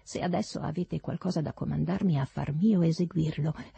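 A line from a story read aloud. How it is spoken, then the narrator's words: Plain. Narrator (Italian): rispose lui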